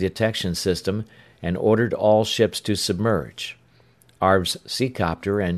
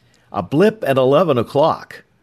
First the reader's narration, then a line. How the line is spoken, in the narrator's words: the sonar man called out suddenly